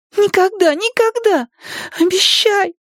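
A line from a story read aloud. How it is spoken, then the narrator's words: Puppyish whimpering. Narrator (Russian): лишь издавая какое-то щенячье повизгивание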